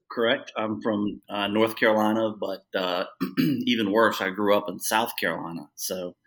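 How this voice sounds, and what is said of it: Southern US drawl. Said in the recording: “a little bit of a drawl ... a South Carolinian accent”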